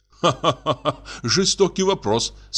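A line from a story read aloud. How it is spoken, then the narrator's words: Laughing. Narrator (Russian): засмеялся поручик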